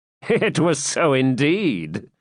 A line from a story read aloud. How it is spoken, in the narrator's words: replied the Templar, laughing